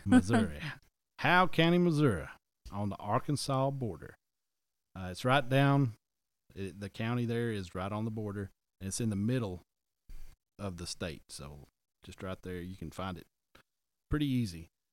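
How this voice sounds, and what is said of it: Southern American twang. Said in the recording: “my southern twang”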